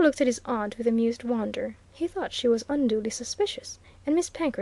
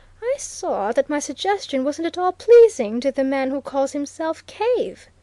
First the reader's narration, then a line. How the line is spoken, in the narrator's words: exclaimed Miss Penkridge